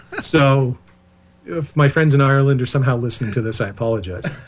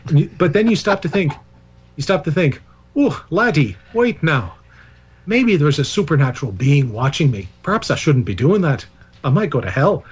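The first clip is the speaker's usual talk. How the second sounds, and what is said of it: Deliberately bad put-on Irish accent. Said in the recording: “that's my worst possible Irish accent”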